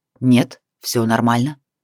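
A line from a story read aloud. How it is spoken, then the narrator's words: Rough. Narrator (Russian): Вэйх грубо выдал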